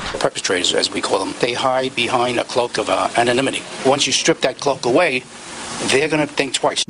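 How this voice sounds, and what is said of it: Strong New York Brooklyn accent. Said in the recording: “his accent is so mafioso New York Italian that it's unbelievable ... that New York Brooklyn accent is so strong”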